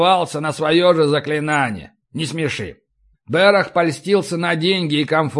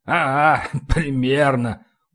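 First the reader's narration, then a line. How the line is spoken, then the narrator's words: Deep belly chuckle. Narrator (Russian): утробно хохотнул гном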